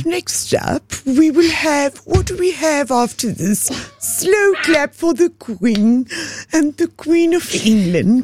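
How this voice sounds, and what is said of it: Put-on English accent, poorly done. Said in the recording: “Give me your best English accent... I'm so bad with the accents.”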